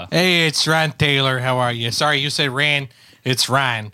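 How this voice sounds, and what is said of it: Chicago accent. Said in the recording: “Just my accent ... That's ... your accent ... I live in Oak Park ... In Chicago”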